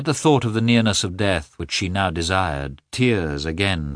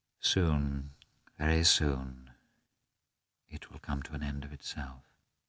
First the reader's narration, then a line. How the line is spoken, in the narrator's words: muttered